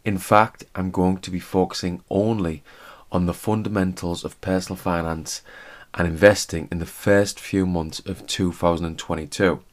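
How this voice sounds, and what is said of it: Monotone voice. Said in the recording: “my monotone voice”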